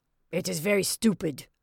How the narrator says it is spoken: he growled

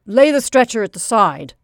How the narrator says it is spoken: snapped the manager

